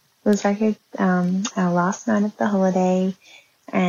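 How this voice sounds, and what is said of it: Usual voice. Nothing is said of it.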